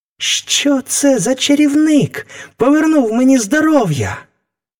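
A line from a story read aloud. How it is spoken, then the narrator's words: Boy exclaiming. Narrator (Ukrainian): вигукнув хлопець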